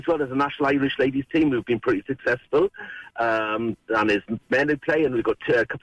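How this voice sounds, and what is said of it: Welsh accent. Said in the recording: “I could listen to you say the word Limerick in a Welsh accent all day”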